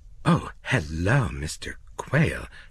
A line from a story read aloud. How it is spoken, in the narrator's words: said nervously